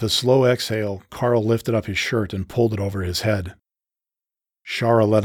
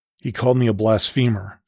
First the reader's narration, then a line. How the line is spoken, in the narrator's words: said Carl, his voice growing in anger